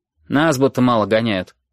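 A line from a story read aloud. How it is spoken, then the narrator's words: Grumbling. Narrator (Russian): проворчала Вика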